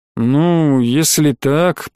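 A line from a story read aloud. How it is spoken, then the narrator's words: Drawling. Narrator (Russian): протянул Гена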